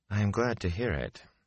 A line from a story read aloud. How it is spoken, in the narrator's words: Moraine said dryly